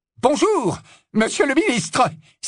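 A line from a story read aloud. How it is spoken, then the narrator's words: Exclaimed. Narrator (French): s'écria Percy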